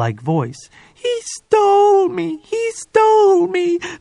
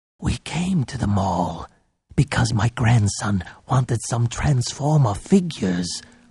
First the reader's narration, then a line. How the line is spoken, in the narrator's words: Popsy whispered